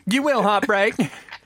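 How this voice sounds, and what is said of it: Camp imitation of another person's voice. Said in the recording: “my Camp Mike Tyson impression”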